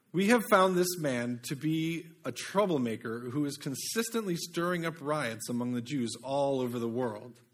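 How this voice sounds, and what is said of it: Put-on British accent. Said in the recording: “Why do I want to do this in a British accent?”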